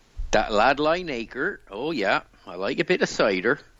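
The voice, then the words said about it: Put-on Devon English accent. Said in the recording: “You'd love their accent. ... I know the Devon accent. ... Not bad. ... very, very good. Passable.”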